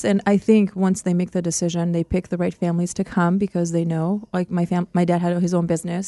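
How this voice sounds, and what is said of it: Slight foreign accent. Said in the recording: “if you did not announce you were from another country, we would have no idea. I mean, your English is so well. I can't even detect much of an accent... you have a little bit of an accent”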